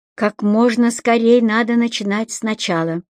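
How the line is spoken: Plain. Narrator (Russian): сказал Стоун

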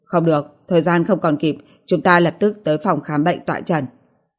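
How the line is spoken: Cold refusal. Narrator (Vietnamese): Niếp Duy Bình lạnh lùng từ chối

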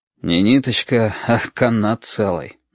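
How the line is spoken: Sighing. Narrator (Russian): вздохнул Валентин

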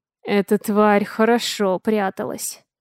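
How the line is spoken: Through gritted teeth. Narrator (Russian): сквозь зубы процедил Чезар

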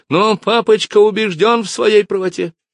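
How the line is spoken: Hysterical shriek. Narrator (Russian): взвизгнула она, потеряв над собой контроль

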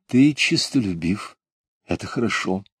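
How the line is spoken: Gentle, soothing mother. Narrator (Russian): Мать, ласково успокаивая его, сказала

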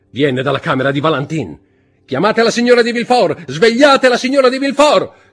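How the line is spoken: Prosecutor shouting. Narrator (Italian): gridò il procuratore del re

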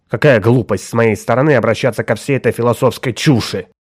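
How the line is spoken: Irritated dismissal. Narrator (Russian): раздраженно отмахнулся О'Тул

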